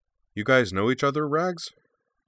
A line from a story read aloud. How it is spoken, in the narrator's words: asked